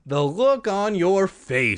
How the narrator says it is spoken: exclaimed when she finally stopped laughing

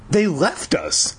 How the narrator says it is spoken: Pat exclaimed

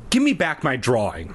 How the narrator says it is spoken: I snapped

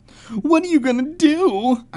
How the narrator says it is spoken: I repeated

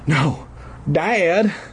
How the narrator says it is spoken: Styx cried

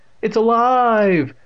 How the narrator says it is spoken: Evan screamed playfully

